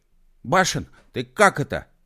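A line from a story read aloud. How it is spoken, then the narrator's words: Offended shout. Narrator (Russian): обиженно крикнул он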